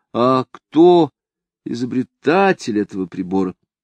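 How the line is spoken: Uncertain question. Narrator (Russian): Кто-нибудь как бы неуверенно спрашивал

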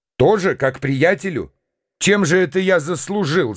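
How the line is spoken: Laughing. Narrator (Russian): засмеялся я

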